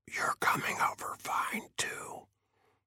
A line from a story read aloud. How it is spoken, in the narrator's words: Faber whispered